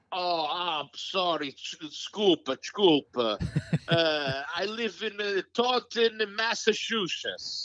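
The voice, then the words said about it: Put-on Portuguese accent. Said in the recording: “say it in the Portuguese accent. Give me a little Portuguese accent. ... That's much better.”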